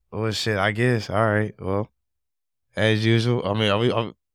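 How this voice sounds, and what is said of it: Hoarse, worn-out voice. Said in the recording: “My voice is kind of gone today ... I sound different, nigga. I've never sounded like this before, ever.”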